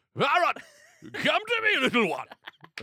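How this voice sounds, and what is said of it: Screamed Bane villain voice. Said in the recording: “screaming in a Bane accent”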